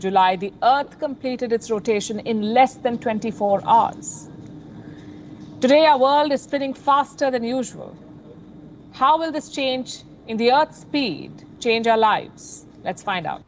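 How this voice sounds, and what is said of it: Non-American news anchor accent. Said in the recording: “you can hear from her accent and inflection, not an American news station”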